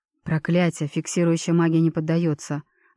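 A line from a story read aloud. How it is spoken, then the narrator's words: Grim. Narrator (Russian): мрачно произнес Микаэль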